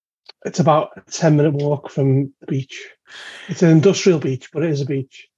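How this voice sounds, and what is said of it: Liverpool-area English accent. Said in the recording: “from your accent, that must be located somewhere near the River Mersey”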